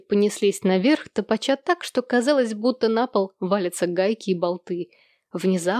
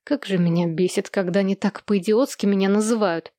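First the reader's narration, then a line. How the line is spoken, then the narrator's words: Grumbling. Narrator (Russian): проворчала Хэнни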